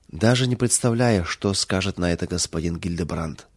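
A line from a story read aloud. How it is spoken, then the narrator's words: Sad remark, maid. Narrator (Russian): печально заметила служанка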